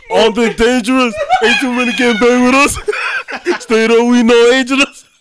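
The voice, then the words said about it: Imitates a rapper's voice. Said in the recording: “Do your best Notorious B.I.G. impression right now.”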